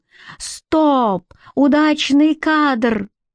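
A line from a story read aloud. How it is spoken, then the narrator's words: Howled. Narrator (Russian): когда оператор взвыл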